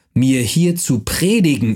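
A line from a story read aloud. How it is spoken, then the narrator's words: Shouting. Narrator (German): schrie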